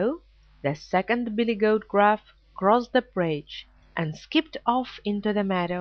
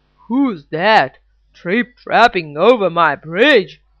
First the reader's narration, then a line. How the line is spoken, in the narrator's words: roared the Troll